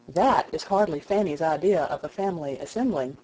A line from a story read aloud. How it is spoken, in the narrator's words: said Edmund